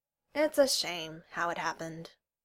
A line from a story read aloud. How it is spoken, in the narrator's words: Neil said mournfully